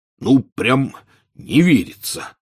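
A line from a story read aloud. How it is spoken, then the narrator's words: Hoarse. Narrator (Russian): хрипло сказал Хагрид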